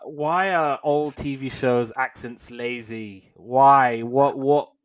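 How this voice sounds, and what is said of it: Usual voice. Nothing is said of it.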